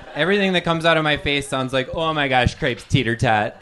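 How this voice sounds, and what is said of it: Wisconsin accent. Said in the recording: “I'm from Wisconsin... That's why I talk like an idiot... with my accent”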